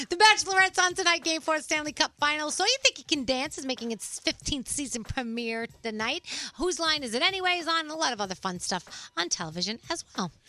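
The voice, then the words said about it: Bubbly party girl voice. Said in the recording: “I do love the party girl voice.”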